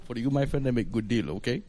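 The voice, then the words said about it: Put-on Indian accent. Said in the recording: “do your Indian accent.”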